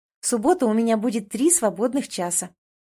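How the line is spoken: Joyful. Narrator (Russian): радостно говорю

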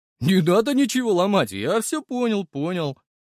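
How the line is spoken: Giggling. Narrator (Russian): хихикнув, произнес Максик

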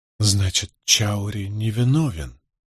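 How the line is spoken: Muttered. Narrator (Russian): пробормотала она

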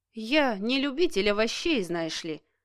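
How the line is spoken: Snorting. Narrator (Russian): хмыкнул Денис

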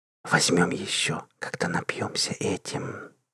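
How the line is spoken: Whisper. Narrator (Russian): прошептала Мелисса

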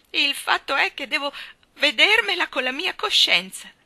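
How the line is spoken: Sobbing. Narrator (Italian): singhiozzò Anna

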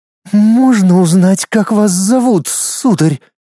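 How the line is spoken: Forced out, suppressed anger. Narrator (Russian): С трудом сдержав гнев от столь пренебрежительного взгляда, выдавила из себя Луиза

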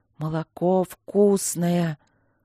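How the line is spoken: Irritated hissing. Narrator (Russian): Раздраженное шипение

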